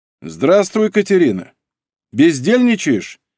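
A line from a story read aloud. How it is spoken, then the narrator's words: Deliberately stern greeting. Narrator (Russian): нарочито строго приветствовал Павел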